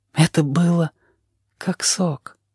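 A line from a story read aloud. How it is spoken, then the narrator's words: Quietly. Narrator (Russian): сказал он тихо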